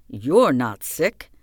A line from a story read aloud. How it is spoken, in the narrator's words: he said with a strange accent